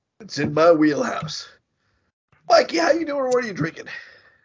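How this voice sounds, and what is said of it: Congested voice with a cold. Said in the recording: “I do have a cold coming out, as you can probably hear in my voice. I know, it's terrible.”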